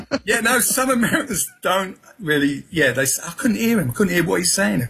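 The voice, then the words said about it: Southeast London accent. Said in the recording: “I was brought up in Peckham, London, Southeast London, so that's my accent.”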